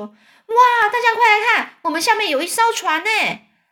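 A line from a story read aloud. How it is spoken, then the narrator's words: Loud excited shout. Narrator (Chinese): 詹姆斯大叫叫大声的叫喊说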